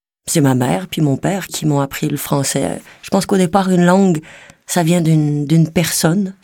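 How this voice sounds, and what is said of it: Québécois French accent. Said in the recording (French): “J'ai un peu d'accent québécois, un peu jurassien des fois, ça dépend”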